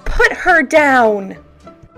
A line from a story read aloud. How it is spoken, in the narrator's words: Rudolph yelled